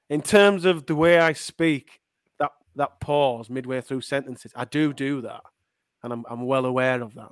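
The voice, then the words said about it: Leeds accent. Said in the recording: “I think I've just got a generic Leeds accent”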